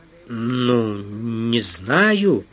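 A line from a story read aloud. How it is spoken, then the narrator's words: Drawn-out, hesitant. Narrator (Russian): протянул он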